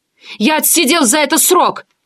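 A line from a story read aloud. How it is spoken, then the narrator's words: Pitiful shout. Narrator (Russian): жалко выкрикнул он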